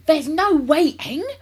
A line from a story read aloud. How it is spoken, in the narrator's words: cried Mr